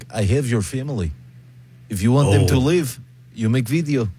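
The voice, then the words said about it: Generic Russian accent, Putin impression. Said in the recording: “good impression... your Putin's better than your Trump... it's also not Putin. It's just generic Russian”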